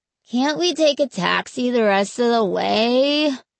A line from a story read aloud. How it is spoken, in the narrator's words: Mark whined